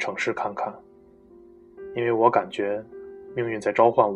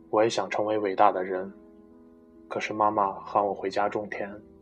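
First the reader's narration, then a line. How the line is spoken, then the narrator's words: Flat, indifferent. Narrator (Chinese): 他淡淡的说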